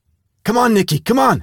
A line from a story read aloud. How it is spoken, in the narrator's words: I yelled